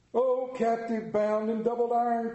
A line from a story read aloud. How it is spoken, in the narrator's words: cried the phantom